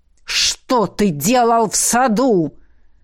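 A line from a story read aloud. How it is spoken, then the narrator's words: Harsh bark. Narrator (Russian): рявкнул советник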